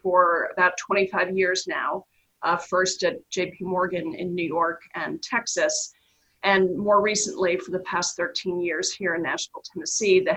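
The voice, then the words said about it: New York accent. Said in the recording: “native New Yorker, um, if you can't tell by my accent”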